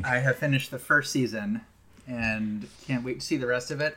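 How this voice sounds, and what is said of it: Thick American accent. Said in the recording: “my thick American accent”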